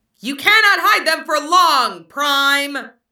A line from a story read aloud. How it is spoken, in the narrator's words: the alien jet screeched back